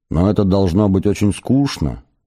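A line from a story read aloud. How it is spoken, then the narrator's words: Plain. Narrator (Russian): спросила она наконец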